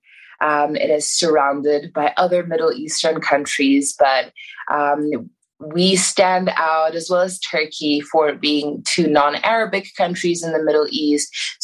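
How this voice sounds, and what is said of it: Iranian-accented English. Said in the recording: “obviously the accent. ... I'm from Iran.”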